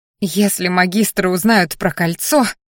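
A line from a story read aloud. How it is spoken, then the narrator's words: Trembling squeak. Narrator (Russian): дрогнувшим голосом пискнула Дионика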